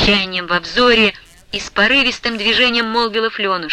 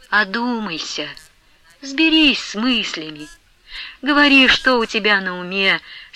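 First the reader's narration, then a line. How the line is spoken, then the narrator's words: Plain. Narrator (Russian): сказала Манефа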